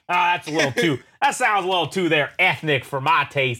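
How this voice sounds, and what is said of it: Put-on Texan accent. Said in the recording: “I don't know why I'm doing a Texan accent”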